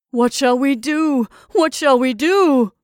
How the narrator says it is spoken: moaned the freckled man, wriggling frantically in his dead balloon

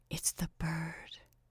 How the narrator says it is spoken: she whispered

